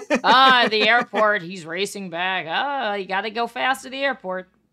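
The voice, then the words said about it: Imitates another person's voice. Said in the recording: “Letterman says ... That's me doing my impression”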